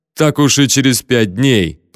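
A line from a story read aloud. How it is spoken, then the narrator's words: Grumble. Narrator (Russian): проворчал я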